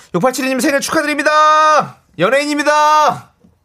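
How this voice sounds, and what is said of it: Loud shouted birthday greeting. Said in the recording (Korean): “큰 목소리로 축하해주세요 ... 약간 약하죠?”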